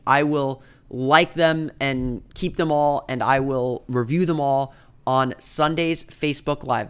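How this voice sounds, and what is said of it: Slightly rough, sick-sounding voice. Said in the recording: “you can kind of tell my voice is still a little bit sour, and I probably paused to cough a few times”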